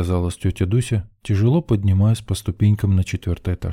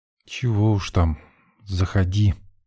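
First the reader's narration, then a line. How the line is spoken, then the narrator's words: Resigned, through gritted teeth. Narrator (Russian): смиряясь с неизбежным, процедила Дульсинея курортная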